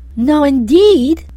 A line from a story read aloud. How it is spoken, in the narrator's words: cried the fairy with a pretty little pout